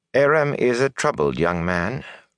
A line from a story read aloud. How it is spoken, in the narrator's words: Rain added sadly